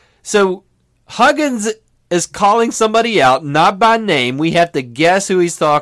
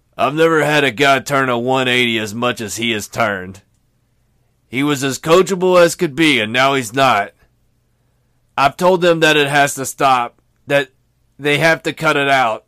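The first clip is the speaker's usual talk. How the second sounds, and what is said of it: Poor impression, nasal congested-sounding voice. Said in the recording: “Huggins voice ... that sounds nothing like Huggins. It's a terrible Bob Huggins impression. ... I just sound like I've had some sinus issues.”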